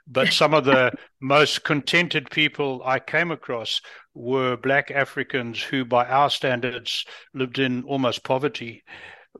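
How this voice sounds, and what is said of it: Unusual African-influenced accent. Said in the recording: “I lived in Africa for most of my life. That's why I have a strange accent.”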